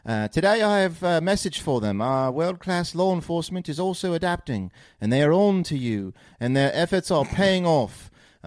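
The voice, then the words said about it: Put-on British accent. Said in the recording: “that's just me again. Once I cut the accent.”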